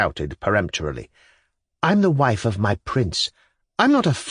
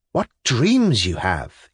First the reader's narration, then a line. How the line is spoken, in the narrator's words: he exclaimed